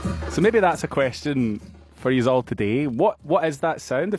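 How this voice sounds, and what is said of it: Thick non-Australian accent. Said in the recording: “Your accent's coming back really thick there ... It'll slowly get a little bit more Australian”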